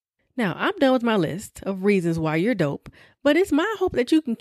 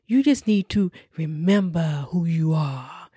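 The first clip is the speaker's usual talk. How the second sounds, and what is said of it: Mufasa character voice. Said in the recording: “In my Mufasa voice.”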